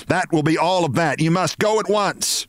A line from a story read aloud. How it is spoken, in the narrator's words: she shouted